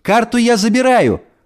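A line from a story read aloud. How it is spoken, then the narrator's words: Joyful shout through mail slot. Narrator (Russian): радостно прокричала Эльса в почтовую щель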